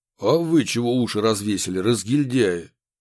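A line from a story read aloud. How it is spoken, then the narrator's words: Sudden bark. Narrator (Russian): Неожиданно рявкнул на подчиненных Красильников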